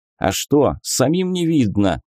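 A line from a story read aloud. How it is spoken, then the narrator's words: Snapping retort. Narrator (Russian): огрызнулся Герент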